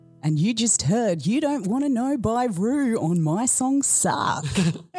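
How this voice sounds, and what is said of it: Radio DJ voice. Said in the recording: “There's a radio voice... Very good radio voice.”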